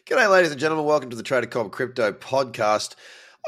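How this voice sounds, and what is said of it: Froggish, congested nasal voice. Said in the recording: “I apologize for my voice sounding a little bit froggish... I got pretty average sinuses... Very, very hard to talk because I can't breathe through my nose... if I sound a bit funny”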